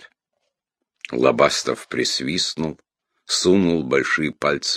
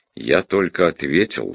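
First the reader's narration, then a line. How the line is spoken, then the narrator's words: Even voice. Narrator (Russian): сказал ровным голосом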